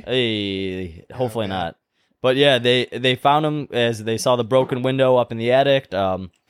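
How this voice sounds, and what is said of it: Western New York regional accent. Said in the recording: “Why do you say burglary like that? ... It's my accent. It's that like South Cheektowaga thing going on. ... It's that northern bullshit. ... we probably talk so fucking fast too. ... We probably sound like Canadians, eh?”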